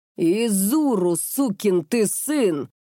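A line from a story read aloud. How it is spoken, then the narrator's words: Thundering voice. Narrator (Russian): снова прогремел голос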